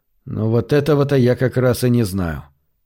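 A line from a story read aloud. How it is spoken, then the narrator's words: Gloomy. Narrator (Russian): мрачно сказал Рори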